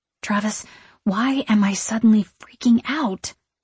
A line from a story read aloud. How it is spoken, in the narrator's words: I whisper to him